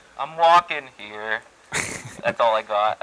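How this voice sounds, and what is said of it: Put-on New York accent. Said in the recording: “You sound like you had a New York accent.”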